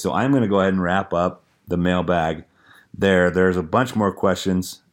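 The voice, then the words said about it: Hoarse, strained voice. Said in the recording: “as you can probably tell, I am losing my voice.”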